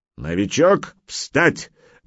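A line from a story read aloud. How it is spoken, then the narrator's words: Weapons master barking. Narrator (Russian): рявкнул мастер оружия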